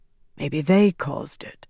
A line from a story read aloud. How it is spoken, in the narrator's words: Naif said softly